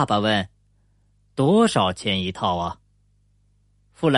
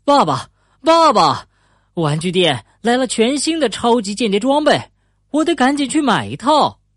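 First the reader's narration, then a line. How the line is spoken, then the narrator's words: Breathless shout. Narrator (Chinese): 富兰克林气喘吁吁的喊着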